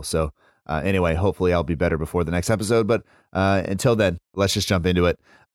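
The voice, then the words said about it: Sick, unwell-sounding voice. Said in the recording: “You can hear it in my voice now. It wasn't any better when we recorded... this is what happens when you have kids and that you get ill”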